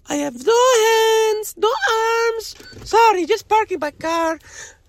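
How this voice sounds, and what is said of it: Character voice with quasi-Mexican accent. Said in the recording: “a quasi-Mexican accent”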